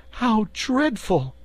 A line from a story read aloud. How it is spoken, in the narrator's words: cried Dorothy